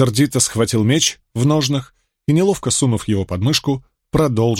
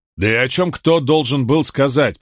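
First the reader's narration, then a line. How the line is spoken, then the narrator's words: Grumbled. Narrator (Russian): пробурчал он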